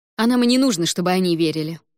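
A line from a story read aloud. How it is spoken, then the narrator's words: Snapping retort. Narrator (Russian): огрызнулась принцесса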